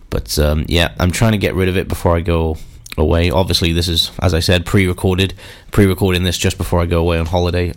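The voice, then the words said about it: Congested, bunged-up voice. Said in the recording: “my bunged up voice. I have a little bit of a cold. ... if I do sound a little bit blech”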